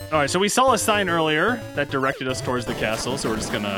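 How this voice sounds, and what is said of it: Usual voice. Nothing is said of it.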